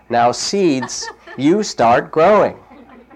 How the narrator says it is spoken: Toad said loudly

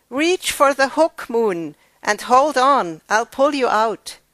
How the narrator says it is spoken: yelled down

